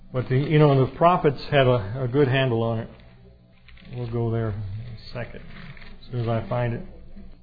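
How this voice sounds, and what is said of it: Arkansas Southern accent. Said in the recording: “my Arkansas accent”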